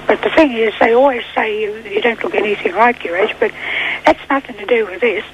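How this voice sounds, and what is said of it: Slightly impaired, weakened voice. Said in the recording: “I've just come out of hospital. That's why my voice is a little impaired.”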